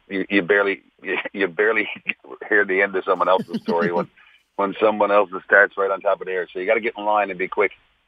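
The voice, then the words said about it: Newfoundland accent. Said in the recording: “your accent's gotten a little stronger? Your Newfoundland accent?”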